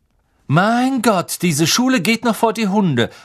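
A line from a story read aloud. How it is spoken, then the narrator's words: Loud. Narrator (German): sagte Malfoy laut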